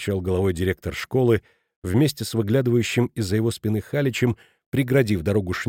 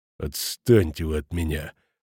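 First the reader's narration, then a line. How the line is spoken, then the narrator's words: Grumbled through teeth. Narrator (Russian): проворчал тот сквозь зубы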